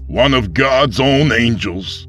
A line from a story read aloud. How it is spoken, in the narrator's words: the pastor spat at him